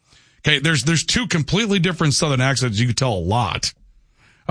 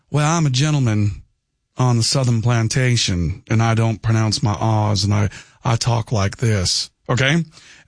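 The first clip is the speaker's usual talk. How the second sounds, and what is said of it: Aristocratic Southern accent, dropped R's. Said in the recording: “the aristocratic, wealthy, from a high pedigree Southern accent ... They don't pronounce their R's. They talk like country gentlemen.”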